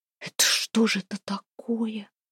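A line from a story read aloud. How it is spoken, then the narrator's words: Whispered. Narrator (Russian): прошептала Устинья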